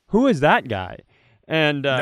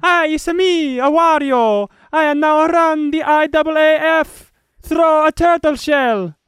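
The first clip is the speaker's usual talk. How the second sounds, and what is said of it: High-pitched mock-Italian Wario voice. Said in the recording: “I'm going to probably do an offensive accent here. That's not accurate at all because I'm not going to speak the Italian ... It wasn't even Italian. It was just high-pitched. The Wario landed like, it's a me, a Wario.”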